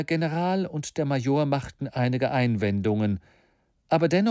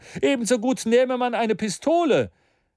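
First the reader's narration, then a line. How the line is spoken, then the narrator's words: Called out. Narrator (German): rief Maston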